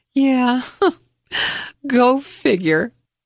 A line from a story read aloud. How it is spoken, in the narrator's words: laughing yet pathetic tears just rolled down my cheeks and said